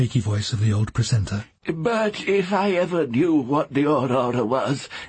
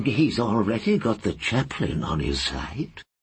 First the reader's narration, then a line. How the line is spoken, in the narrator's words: the librarian murmured in reply